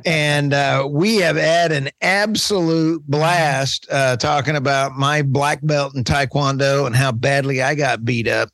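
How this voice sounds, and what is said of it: Texas Oklahoma accent. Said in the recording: “that's my Texas, Oklahoma accent coming out”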